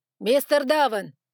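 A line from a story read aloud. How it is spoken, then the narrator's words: Sharp cutting interruption. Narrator (Russian): оборвал его Лукас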